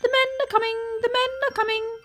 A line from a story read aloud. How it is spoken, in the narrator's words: he chirped anxiously